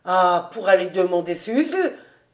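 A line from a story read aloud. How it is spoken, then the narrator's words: Exclaiming. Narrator (French): s'écria Fritz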